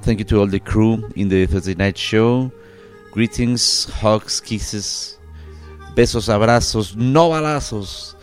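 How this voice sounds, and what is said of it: Mexican-accented English. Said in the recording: “I'm ... from Mexico. My accent is my statement.”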